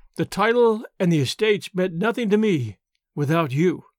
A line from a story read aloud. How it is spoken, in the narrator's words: he replied